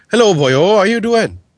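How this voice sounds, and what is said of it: Imitated Welsh accent as Drippy. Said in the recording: “the character called Drippy ... is somehow for some reason voiced with a Welsh accent”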